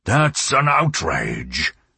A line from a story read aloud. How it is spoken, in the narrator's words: thundered Colonel Aureliano Buendía